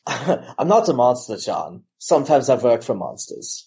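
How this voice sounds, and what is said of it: Jeremy Irons impression. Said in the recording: “my Jeremy Irons impression”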